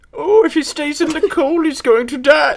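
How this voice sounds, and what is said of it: Mrs. Doubtfire-style lady voice. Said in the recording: “Let's say it like a lady this time ... I thought that was the best Doubtfire impersonation”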